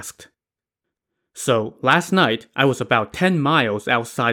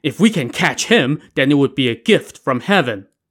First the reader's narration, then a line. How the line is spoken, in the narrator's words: exclaimed